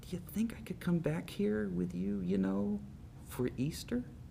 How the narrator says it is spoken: whispered

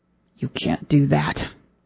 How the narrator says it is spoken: the game show host gets up too close, he hisses

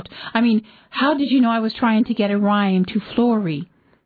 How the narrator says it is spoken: He asked sharply

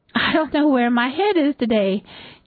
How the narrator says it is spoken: Deary said cheerfully

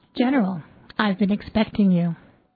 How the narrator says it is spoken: He said in a calm voice

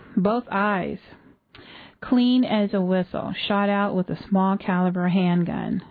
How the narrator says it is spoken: said Hal Carmody

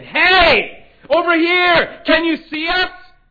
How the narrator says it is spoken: shouted into the dark night

